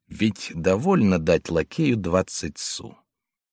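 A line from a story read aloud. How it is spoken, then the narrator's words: Quiet question. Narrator (Russian): Жюльен тихо спросил жену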